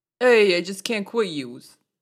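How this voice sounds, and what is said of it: Heavy put-on Brooklyn accent. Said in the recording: “Any iconic movie quote, but in a heavy Brooklyn accent ... Oh my god, that was good.”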